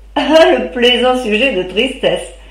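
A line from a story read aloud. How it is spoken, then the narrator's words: Laughing interruption. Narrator (French): interrompit-elle en riant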